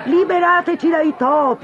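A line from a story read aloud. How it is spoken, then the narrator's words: Crowd shouting. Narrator (Italian): urlavano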